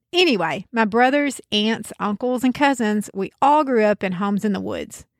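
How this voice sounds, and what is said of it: Southern backwoods American accent. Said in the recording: “I'm from the South. You might even be able to tell from my accent that the specific region is backwoods”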